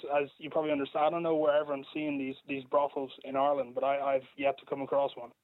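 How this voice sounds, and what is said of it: American accent. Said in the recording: “I, I, detect the American accent”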